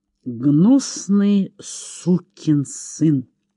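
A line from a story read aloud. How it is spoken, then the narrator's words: Through gritted teeth. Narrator (Russian): произнес Чейз сквозь зубы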